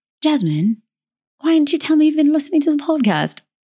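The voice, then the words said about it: Poor put-on British accent. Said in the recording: “that's like a terrible like British accent, but it is what I got right now”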